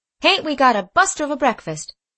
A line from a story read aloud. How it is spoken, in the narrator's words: said Mose, triumphantly